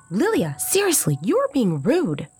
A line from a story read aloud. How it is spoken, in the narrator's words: I snapped